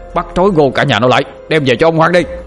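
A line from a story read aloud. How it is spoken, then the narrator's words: Approaching shouts. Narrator (Vietnamese): tiếng quát tháo ngày càng gần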